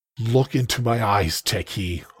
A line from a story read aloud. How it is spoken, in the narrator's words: I growled